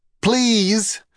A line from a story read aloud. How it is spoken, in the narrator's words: he shouted